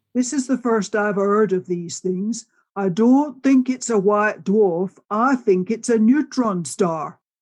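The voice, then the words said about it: Fred Hoyle impression, Yorkshire accent. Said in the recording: “I'll try and do Fred's Yorkshire accent.”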